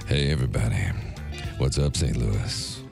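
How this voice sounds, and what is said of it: Deep seductive sexy voice. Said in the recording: “do your sexy voice”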